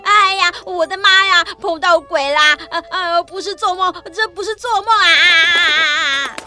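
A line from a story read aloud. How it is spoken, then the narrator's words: Terrified shouting. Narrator (Chinese): 顽皮豹吓坏了，拔腿就跑，一边喊着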